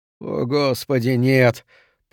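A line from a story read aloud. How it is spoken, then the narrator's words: Groaning. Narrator (Russian): простонал Билл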